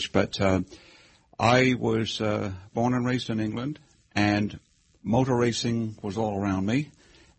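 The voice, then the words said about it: British accent mixed with Hoosier. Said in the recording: “your charming accent, that you've come here from Great Britain ... there's still some British in the accent, but it's a mixture of Hoosier and British”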